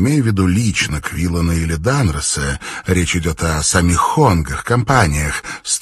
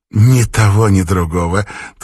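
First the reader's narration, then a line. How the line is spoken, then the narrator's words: Quick reply, then laughing. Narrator (Russian): тут же отреагировала и засмеялась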